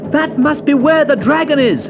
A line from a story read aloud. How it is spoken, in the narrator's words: shouted Leo